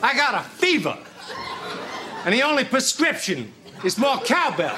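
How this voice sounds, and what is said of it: Christopher Walken impression. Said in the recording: “we're not good impersonators of Christopher Walken”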